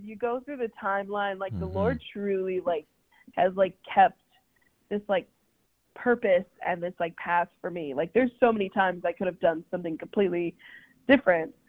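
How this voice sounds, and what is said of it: Congested, stuffy-nosed, unusually deep voice. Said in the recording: “I sound really like my nose is stuffed up ... So I normally don't sound so deep ... that deep voice”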